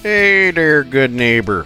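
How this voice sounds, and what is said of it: Put-on northern accent. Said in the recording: “You like my northern accent? I perfected it during my college years in the Great North”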